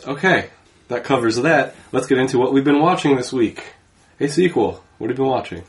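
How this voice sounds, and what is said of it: Sick, rough-sounding voice. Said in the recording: “I'm sick, so sorry about my voice.”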